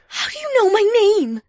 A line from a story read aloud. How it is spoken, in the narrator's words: She gasped in a horrified tone